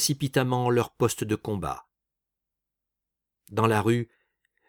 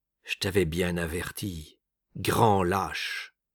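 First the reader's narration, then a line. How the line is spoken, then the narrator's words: Muffled voice. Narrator (French): dit-il d'une voix sourde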